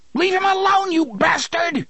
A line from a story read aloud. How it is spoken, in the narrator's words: Jake screamed